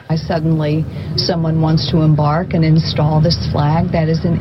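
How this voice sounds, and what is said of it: Northern US Yankee accent. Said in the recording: “She doesn't sound like she belongs ... she doesn't sound like Mr. Chris Ward ... Listen to this accent ... She's a Yankee.”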